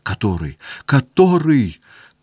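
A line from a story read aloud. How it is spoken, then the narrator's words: Tearful asking. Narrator (Russian): плачущим голосом спрашивал вокруг себя Петя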